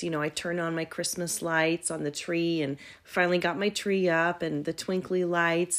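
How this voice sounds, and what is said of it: Scratchy, hoarse voice. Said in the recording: “my voice sounds a little bit different ... my voice is a little bit scratchy today”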